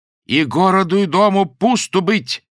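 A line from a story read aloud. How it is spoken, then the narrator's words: Loud repetition. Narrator (Russian): повторила она громко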